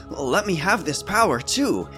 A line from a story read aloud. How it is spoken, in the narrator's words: he exclaimed